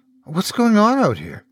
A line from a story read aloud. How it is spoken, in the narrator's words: the young woman asked, her tone one of timid confusion